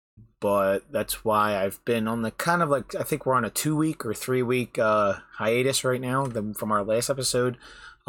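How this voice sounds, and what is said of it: Stoic, subdued podcast-style voice. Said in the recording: “I have my podcast voice on today for some reason... I'm more like stoic”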